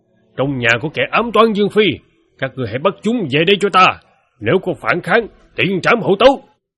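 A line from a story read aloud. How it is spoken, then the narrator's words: Shouting backward. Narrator (Vietnamese): hét về phía sau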